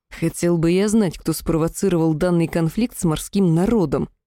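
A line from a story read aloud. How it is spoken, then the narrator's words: Growl. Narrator (Russian): прорычал Арвиэль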